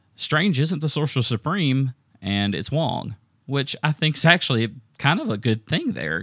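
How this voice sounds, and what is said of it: Southern American accent. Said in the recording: “it's just my southern accent that kind of blends into that”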